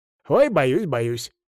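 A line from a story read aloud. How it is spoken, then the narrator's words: Laughing. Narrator (Russian): засмеялся парень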